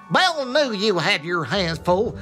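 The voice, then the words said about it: Put-on Texan accent. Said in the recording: “do it as if it's the Texas, the horse. Can you do a Texan accent? ... I'll have a go at this.”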